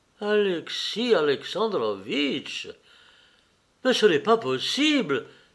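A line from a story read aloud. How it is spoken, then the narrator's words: Pained cry. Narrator (French): s'écria-t-il avec douleur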